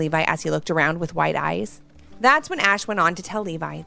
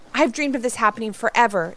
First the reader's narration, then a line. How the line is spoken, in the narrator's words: exclaimed Levi